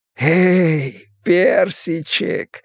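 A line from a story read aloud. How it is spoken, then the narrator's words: Tender hoarse whisper. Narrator (Russian): хриплый шепот сопровождался нежной улыбкой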